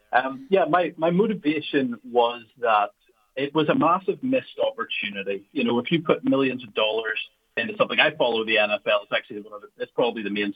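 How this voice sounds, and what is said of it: Noticeable non-local accent. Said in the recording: “hopefully everybody can understand my accent over there”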